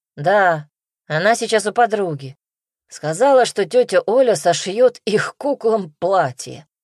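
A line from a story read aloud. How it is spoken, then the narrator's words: Snorting. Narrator (Russian): хмыкнул Дмитрий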